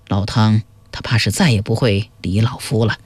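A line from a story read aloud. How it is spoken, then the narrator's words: Soft sigh, low voice. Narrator (Chinese): 冯琦轻叹一声，低语说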